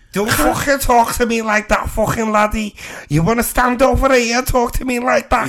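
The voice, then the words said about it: Put-on Scouse accent. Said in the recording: “Can you do accents? ... Give us a scouser.”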